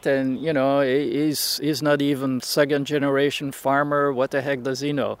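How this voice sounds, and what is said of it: European accent. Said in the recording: “It's that guy from Europe. ... he's got a weird accent”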